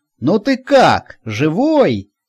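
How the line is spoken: Feigned cheerful shout. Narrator (Russian): бодро крикнул он, продолжая играть перед Никифорычем выбранную накануне роль

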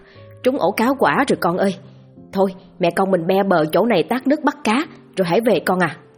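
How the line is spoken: Joyful shriek. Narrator (Vietnamese): Chị Nhâm rú lên vì mừng rỡ

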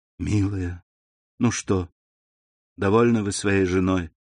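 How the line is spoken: Sad young woman. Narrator (Russian): грустно сказала девушка

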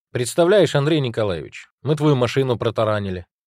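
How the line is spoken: Joyful announcement. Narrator (Russian): радостно сообщил Голицын

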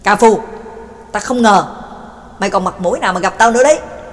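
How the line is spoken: Angry roar. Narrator (Vietnamese): McKin hít sâu một hơi, giận dữ gầm lên

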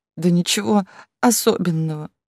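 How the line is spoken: Sobbing. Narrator (Russian): всхлипнула Яда

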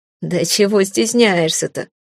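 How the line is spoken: Chuckling neighbor. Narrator (Russian): хохотнул сосед

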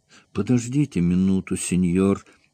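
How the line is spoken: Trembling voice, Spaniard. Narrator (Russian): дрожащим голосом произнес испанец

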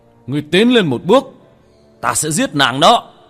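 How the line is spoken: Hurried fierce shout. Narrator (Vietnamese): hắn vội vàng, một khuôn mặt dữ tợn hét lên

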